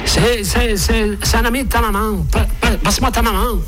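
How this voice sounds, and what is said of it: Put-on Québécois French accent. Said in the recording (French): “je vous prends l'accent québécois”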